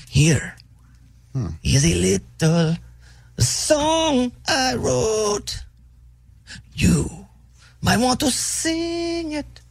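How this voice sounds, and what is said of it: Sung with a put-on accent. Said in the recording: “There's an accent there. ... It's like Scarface.”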